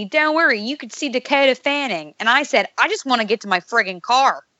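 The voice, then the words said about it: Put-on Pittsburgh Yinzer accent. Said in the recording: “I like that accent. It's kind of neat. ... It's often called the ugliest accent in the world. ... the Pittsburgh accent”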